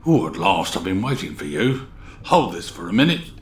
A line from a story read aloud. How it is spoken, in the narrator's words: They heard him mutter